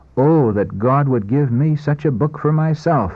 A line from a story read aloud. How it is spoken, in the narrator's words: With quickened pulse and throbbing heart, pausing now and then to exclaim